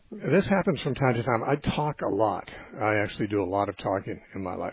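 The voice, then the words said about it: Worn-out voice that may crack. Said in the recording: “I've got a problem with my voice ... my voice will probably crack a little bit ... my voice gets worn out sometimes”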